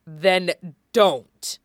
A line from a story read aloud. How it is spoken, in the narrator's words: he spat